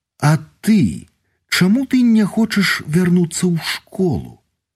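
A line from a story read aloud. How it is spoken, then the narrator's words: Apologetic smiling speech. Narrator (Belarusian): усміхнулася, як павінілася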